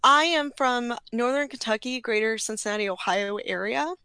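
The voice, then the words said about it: Slight Kentucky accent. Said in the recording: “you can probably hear my accent a little ... A little bit. A little bit. ... a little bit of that Kentucky”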